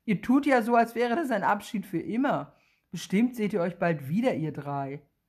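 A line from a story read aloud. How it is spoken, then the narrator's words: Laughing mother. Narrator (German): Bennys Mutter lacht und sagt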